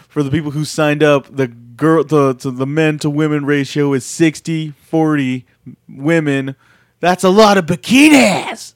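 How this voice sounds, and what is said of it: Imitates another person's voice. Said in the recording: “This is my Jericho impersonation.”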